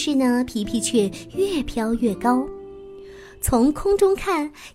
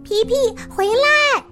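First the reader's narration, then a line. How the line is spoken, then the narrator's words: Loud calling. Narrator (Chinese): 妹妹丽丽高声的叫着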